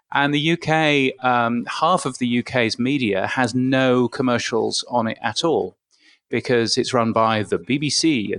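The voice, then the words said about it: British accent. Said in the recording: “my aloof British accent”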